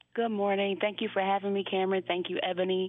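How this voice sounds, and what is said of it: Raspy, hoarse voice. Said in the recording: “Excuse my raspy voice this morning. ... No justice, no sleep, so I'm a little raspy.”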